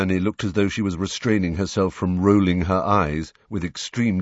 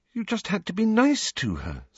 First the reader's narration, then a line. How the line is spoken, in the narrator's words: said Hermione, looking up anxiously